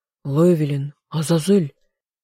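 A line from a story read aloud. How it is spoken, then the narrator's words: Hoarse, friend. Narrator (Russian): хрипло произнес мой друг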